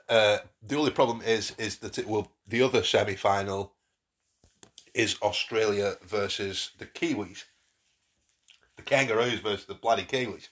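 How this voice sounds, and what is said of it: Hoarse, failing voice. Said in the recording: “Excuse me, I'm losing my voice.”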